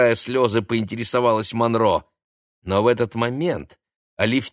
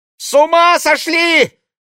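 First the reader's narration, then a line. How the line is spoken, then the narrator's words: Frightened shriek. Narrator (Russian): испуганно взвизгнула Ксения Монро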